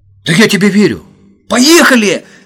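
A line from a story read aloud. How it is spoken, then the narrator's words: Sudden shout, laughing. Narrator (Russian): заорал вдруг Володя и захохотал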